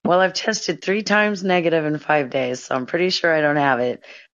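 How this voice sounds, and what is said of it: Hoarse, strained voice. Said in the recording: “My voice is shot. I, like, lost my voice. ... I, like, got the worst cold in the world”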